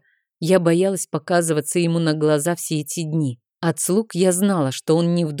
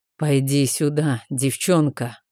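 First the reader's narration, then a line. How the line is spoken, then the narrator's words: Hoarse male voice, close. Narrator (Russian): раздался хриплый мужской голос над моим ухом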